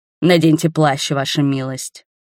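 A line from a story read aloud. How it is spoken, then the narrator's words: Strange growling voice. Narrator (Russian): странным, рычащим голосом сказал он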